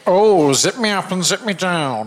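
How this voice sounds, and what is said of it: Kenneth Williams impression as Dr. Soper. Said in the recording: “the best impersonation of Kenneth Williams' character, Dr. Soper, in Carry On Camping”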